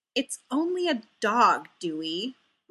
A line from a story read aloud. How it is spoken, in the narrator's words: Ray said with a small superior sneer